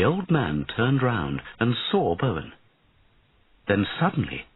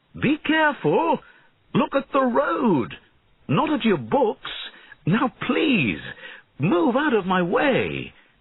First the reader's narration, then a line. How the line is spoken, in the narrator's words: he shouted